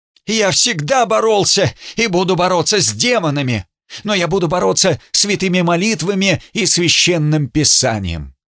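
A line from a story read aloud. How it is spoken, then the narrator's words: Shrill. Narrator (Russian): Он сказал тут же визгливо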